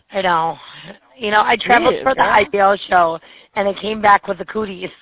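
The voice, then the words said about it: Raspy, hoarse voice. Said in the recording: “it sounds like ... but like ... with a little rasp ... the sexy voice ... Sultry ... I am getting over laryngitis”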